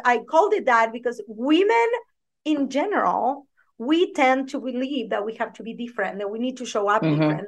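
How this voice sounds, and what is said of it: Speaks with her own accent. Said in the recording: “show up as myself with my accent”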